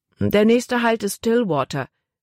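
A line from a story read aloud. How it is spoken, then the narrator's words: Plain. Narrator (German): sagte er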